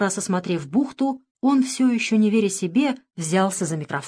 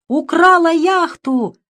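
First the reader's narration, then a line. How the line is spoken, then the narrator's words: Fat man yelling in terror. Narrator (Russian): заорал в ужасе толстяк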